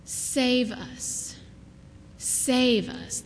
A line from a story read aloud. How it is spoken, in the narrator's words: they said